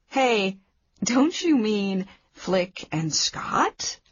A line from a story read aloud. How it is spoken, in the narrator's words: I laughed